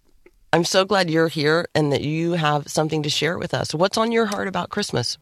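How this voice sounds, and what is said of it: Slightly rough, hoarse voice. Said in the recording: “your voice is a little rough”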